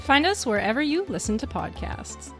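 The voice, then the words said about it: Smooth announcer-style podcast voice. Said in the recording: “That was a really smooth one at the end there ... I tried to turn on my podcast voice for that one.”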